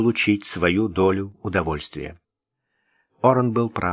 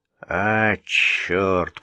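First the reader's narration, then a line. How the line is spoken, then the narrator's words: Mumbling. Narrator (Russian): пробурчал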